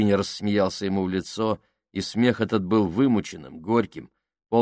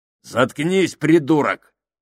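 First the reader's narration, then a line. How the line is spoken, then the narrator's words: Bark. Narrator (Russian): рявкнул Сакс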